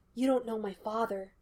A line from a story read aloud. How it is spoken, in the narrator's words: Sean whispered